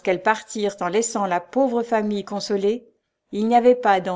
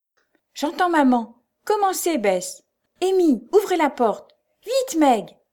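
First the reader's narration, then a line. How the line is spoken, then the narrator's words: Exclamation. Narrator (French): s'écria Jo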